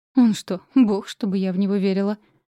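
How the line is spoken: Snorting scoff. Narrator (Russian): хмыкнула

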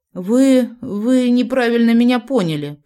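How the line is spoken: Stammering babble. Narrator (Russian): пролепетала я, заикаясь

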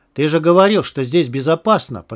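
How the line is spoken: Shouted. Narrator (Russian): прокричал Лист

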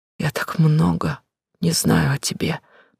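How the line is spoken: Trembling, tearful voice. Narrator (Russian): дрожащим голосом глотая слезы

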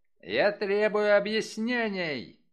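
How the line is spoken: Hotly shouted. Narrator (Russian): запальчиво выкрикнул он

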